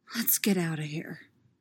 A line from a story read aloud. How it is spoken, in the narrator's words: he whispers